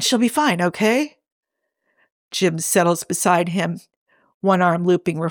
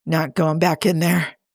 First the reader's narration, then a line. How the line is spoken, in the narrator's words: Leonard grunts into his hands